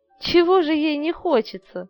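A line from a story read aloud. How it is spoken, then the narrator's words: Laughing. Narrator (Russian): рассмеялась Людмила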